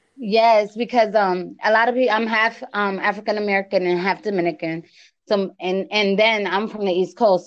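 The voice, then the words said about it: East Coast American accent. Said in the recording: “my accent's really, really like different... my accent is crazy... you sound like Cardi B a little bit... that East Coast. We sound like that... you have a really nice accent.”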